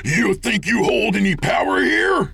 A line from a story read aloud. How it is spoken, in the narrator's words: Jake screamed